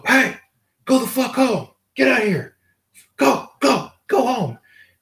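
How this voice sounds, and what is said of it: Yelling. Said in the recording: “He's yelling at”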